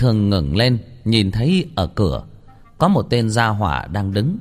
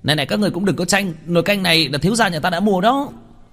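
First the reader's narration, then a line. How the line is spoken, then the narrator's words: Shrill voice. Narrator (Vietnamese): vang lên một cái giọng the thé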